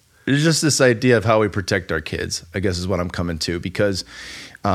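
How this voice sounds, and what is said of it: Usual voice. Nothing is said of it.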